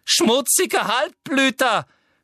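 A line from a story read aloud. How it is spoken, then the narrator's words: Scream. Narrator (German): schrie Umbridge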